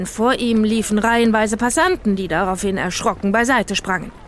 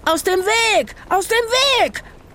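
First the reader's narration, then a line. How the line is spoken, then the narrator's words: Shouted while running. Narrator (German): schrie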